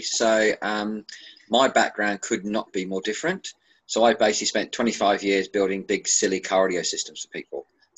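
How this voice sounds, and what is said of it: Australian accent. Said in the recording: “I've been Australian, obviously, by the silly accent.”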